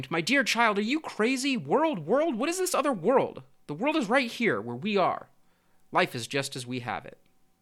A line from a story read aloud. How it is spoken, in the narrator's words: the mother exclaimed